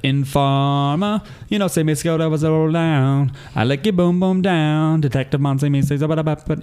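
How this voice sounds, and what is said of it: Fake Jamaican rap accent. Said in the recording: “a white guy who raps like he's Jamaican ... the song that I just fucking nailed”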